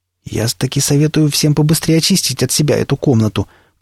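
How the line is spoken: Almost casual tone. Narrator (Russian): произнес Илья Львович почти будничным голосом

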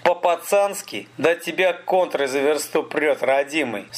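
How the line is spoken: Laughing. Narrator (Russian): Столяров засмеялся

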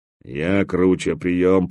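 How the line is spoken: Repeating in deep bass. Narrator (Russian): повторял басом человек-скала

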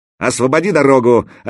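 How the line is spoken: Shout. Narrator (Russian): опять крикнул Заточка

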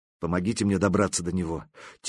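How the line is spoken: Quiet plea. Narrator (Russian): тихо попросила она

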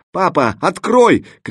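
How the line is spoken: Hoarse tearful shout. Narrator (Russian): кричала Оксана сорванным, дрожащим от слез голосом

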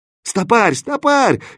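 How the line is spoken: Helpless yelling. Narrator (Russian): беспомощно заорал Кирза

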